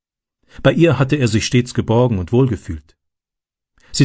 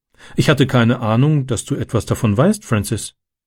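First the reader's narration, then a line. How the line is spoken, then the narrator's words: Plain. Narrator (German): sagte sie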